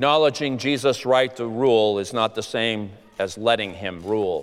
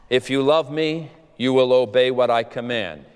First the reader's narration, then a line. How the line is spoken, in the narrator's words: he said